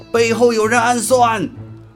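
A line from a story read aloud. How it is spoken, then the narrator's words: Thunderous roar. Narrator (Chinese): 孙策大吼一声，声如巨雷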